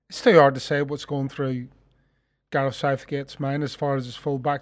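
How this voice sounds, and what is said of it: Speaks with a noticeable accent. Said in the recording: “I don't f- follow England avidly, as you probably are aware with the accent.”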